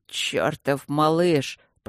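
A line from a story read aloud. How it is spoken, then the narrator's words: Admiring mutter. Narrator (Russian): пробормотал барон восхищенно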